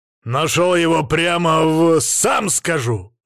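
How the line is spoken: Growled in face. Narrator (Russian): рыкнул я ему в морду

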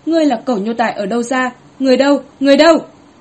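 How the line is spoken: Furious loud scolding. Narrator (Vietnamese): Quốc cữ hô to tức chỉ vào Hứa Thất An quát mắng

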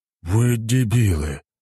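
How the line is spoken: Exhaled words. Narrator (Russian): выдохнул командир

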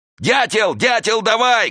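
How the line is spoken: Shouting. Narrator (Russian): кричал он

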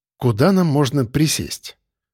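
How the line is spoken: Gentle, deflecting. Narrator (Russian): Мягко проигнорировал я комплимент

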